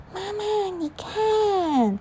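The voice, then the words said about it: Weak, faint child's voice. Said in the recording (Chinese): “她用微弱的声音说”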